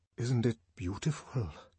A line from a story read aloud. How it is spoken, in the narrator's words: His voice trembled a little